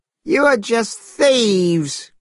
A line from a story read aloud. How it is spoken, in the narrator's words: cried Monkey